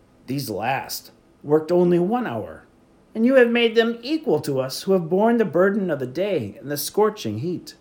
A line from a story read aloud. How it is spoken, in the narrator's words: they grumbled at the master of the house, saying